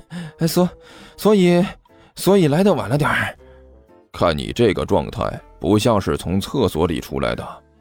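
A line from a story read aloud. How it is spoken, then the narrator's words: Breathless, forced laugh. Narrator (Chinese): 甘球喘了两口气，干笑着说道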